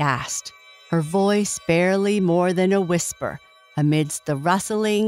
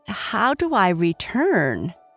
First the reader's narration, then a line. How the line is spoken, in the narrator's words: asked hesitantly, feeling she might seem ungrateful